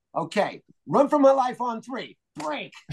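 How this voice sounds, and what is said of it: Imitates another person's voice. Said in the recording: “This is my impression of is Fields in the huddle.”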